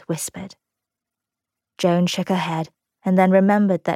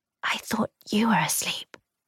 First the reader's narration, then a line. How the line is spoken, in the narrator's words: she whispered back